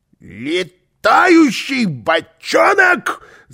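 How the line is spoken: Yelling. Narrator (Russian): завопил он

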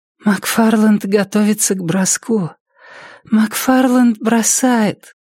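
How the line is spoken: Tired exhale. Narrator (Russian): Устало выдохнула Триша

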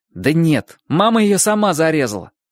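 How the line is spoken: Irritated explanation. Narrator (Russian): раздраженно пояснил Чик

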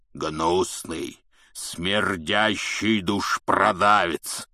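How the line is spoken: Loud growl. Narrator (Russian): прорычал Хагрид на весь бар

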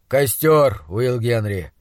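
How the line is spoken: Tired doctor speaking. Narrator (Russian): устало сказал доктор

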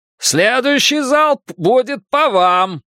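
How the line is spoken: Shout. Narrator (Russian): крикнул тот же самый муж

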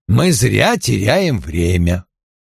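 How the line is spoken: Calm. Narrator (Russian): спокойно обратился к нему

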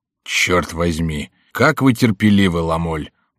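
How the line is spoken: Grumbling. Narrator (Russian): проворчал Коконна

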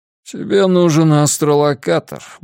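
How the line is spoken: Grumbling mutter. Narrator (Russian): буркнул Миртон

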